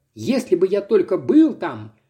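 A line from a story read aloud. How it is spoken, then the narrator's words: Threatening exclamation. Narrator (Russian): воскликнул мой друг с угрожающим видом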